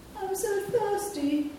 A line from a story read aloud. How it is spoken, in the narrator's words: wailed Sniff